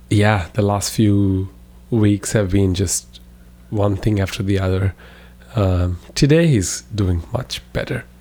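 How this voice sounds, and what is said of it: Rough voice from sore throat. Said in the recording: “I'm recovering from a sore throat, so my voice is pretty bad.”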